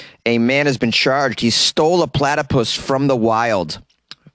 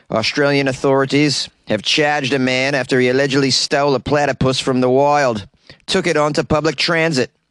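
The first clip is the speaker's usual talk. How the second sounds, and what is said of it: Poor imitation Australian accent. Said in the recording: “my Australian accent is terrible”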